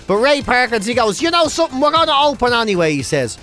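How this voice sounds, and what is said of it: Irish accent. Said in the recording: “this is us doing the equivalent if from an Irish perspective ... I'll do it in my own accent.”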